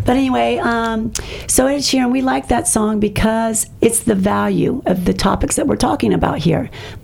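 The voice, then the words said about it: Hoarse, fading voice. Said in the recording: “I'm losing my voice. Can you tell? ... I think it's the pollen.”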